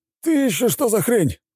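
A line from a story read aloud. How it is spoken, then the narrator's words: Pilot's surprised shout. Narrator (Russian): выкрикнул пилот боевой машины от удивления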